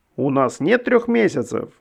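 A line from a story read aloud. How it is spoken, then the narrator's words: Desperate exclamation. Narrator (Russian): в отчаянии воскликнул Иешуа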